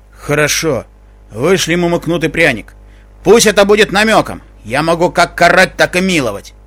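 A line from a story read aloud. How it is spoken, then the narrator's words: Grumbling. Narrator (Russian): проворчал он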